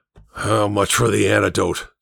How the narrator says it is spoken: Sangstrom growled

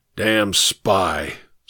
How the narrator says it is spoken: muttered

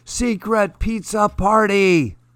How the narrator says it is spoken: he's yelling

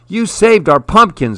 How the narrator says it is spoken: exclaimed Harry

